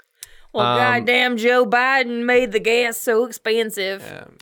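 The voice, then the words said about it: Mock stereotypical Republican voice. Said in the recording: “That was my best impression of a Republican.”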